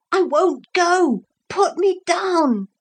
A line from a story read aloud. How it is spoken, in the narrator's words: Philip shouted